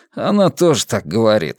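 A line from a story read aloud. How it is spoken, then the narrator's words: Snorting. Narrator (Russian): хмыкнул Вивьен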